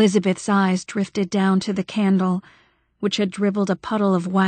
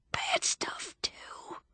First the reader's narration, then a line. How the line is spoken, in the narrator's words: he whispered